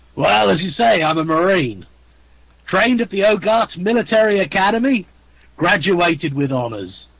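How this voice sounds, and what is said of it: British accent. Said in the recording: “that British accent”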